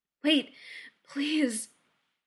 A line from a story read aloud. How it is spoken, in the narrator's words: he gasps out